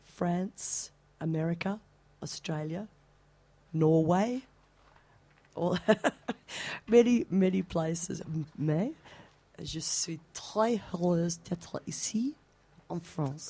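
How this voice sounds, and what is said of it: Slight foreign accent speaking French. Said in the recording (French): “C'est très charmant, ce petit accent.”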